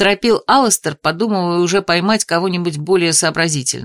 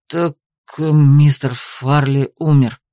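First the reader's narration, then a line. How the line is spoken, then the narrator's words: Forced-out secretary's words. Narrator (Russian): все-таки выдавил из себя секретарь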